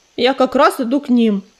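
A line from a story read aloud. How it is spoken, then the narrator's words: Booming bass, hurricane. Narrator (Russian): пробасил ураган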